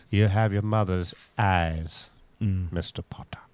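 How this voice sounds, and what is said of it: Nasal Yankee cowboy character voice. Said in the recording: “Is this the Yankee Cowboy? ... You're getting that nasal... Yeah, you're getting that Yankee part in there.”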